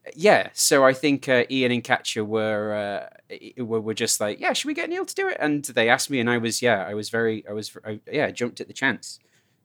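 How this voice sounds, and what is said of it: British accent. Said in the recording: “if you have a British accent, it sounds like, you know, I guess a little sort of like, I don't know, I don't want to say classy, but it sounds like you're more clever”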